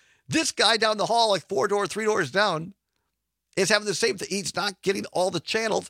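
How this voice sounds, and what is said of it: Usual voice. Nothing is said of it.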